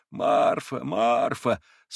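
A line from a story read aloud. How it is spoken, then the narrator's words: Weak, moaning, terrible voice. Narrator (Russian): слабым, стенящим, страшным голосом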